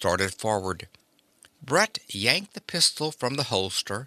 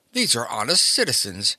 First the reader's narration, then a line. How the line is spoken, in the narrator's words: the fat man gasped